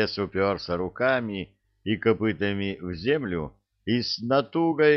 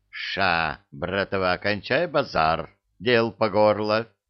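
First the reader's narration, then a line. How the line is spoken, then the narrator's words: Stern command. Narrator (Russian): строго скомандовала центральная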